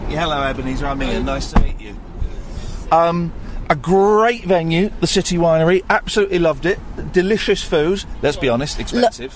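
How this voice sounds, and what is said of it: British accent. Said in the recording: “That's British accent, right? ... Yeah, it is a British.”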